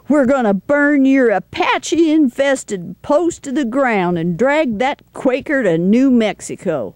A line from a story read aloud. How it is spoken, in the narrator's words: Ori shouts